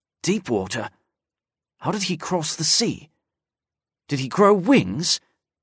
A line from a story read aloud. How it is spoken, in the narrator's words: Icesand muttered to himself